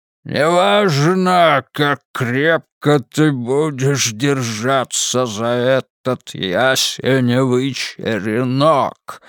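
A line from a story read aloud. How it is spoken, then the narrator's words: Hoarse, creaky voice. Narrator (Russian): говорил Тони Трекер хриплым, скрипучим голосом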